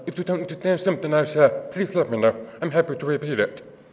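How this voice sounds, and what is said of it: Distinctive accented speech. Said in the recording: “I realize I have an accent. I'm deaf.”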